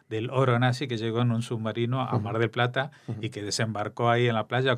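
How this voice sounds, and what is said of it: Argentine Spanish accent. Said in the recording (Spanish): “Habrás adivinado por mi acento que soy argentino”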